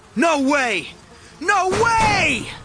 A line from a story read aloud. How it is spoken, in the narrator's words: screamed